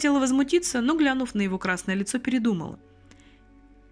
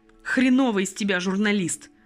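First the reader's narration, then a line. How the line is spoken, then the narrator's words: Growl, young man. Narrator (Russian): рыкнул на нее молодой артист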